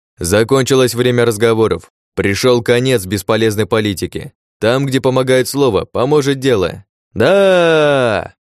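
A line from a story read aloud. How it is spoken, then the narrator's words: Crowd shouting. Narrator (Russian): закричали эсперы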